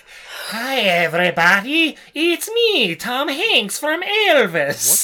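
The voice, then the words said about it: Dracula-like Irish gravekeeper voice. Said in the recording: “doing a Dracula impression ... It's a little bit more of an Irish gravekeeper.”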